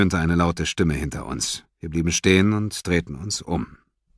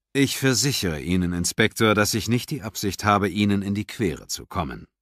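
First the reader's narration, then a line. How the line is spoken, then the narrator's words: Calm. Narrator (German): sagte Nightingale ruhig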